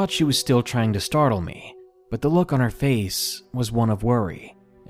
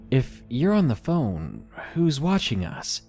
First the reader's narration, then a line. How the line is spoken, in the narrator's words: she said in a confused voice